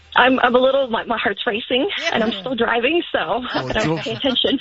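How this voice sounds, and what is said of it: Excited, choked-up voice. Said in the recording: “getting choked up? You sound so excited.”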